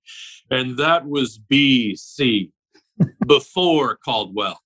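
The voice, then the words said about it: Impression of Tom Carnegie. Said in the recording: “that's a good impression, too. That sounds just like Tom. It really does.”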